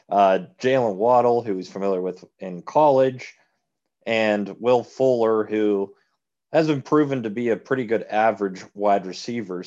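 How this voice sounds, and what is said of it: Strained, hoarse voice. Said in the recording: “losing my voice”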